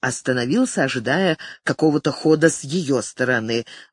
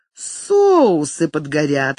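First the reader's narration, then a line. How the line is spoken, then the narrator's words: Laughing woman. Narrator (Russian): рассмеялась она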